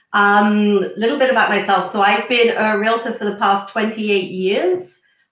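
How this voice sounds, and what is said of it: British accent. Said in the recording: “you've got a British accent”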